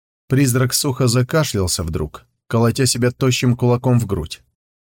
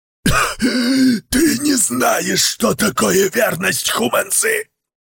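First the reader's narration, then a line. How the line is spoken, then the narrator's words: Hoarse wheeze. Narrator (Russian): просипел Пэй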